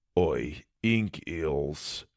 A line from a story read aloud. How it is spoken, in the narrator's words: he muttered